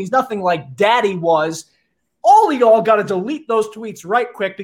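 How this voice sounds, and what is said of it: Midwestern American accent. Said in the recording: “Midwest accent is beginning to get ... Midwest accent,”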